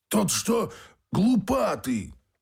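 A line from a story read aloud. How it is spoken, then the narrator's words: Grumbled. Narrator (Russian): проворчал Феогност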